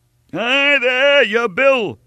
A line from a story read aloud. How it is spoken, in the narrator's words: shouted the innkeeper, his affection for his guest changing to scorn as he saw him make off without settling his account